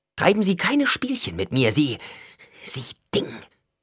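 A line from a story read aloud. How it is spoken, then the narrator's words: Hissed. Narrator (German): zischte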